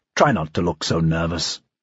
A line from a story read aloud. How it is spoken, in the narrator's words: Dreyfus said quietly